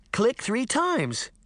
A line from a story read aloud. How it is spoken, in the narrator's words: Daphne cried